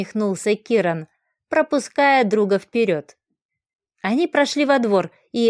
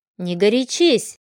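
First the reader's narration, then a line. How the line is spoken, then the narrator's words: Quiet but firm. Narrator (Russian): тихим, но твердым голосом произнес он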